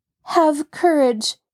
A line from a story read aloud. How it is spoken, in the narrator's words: she called out to Jacob Aborn